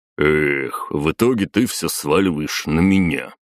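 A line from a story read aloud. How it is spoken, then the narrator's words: Grumbling. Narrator (Russian): проворчал Батуми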